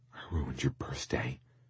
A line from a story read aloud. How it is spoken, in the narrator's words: I said softly as sleep grew heavy on my eyelids